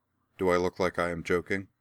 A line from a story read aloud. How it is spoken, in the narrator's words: Laura replied flatly